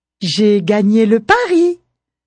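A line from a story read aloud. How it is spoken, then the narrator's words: Exclaimed. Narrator (French): s'exclame Tigeant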